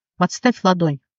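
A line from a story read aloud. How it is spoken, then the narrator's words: Plain. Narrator (Russian): сказал он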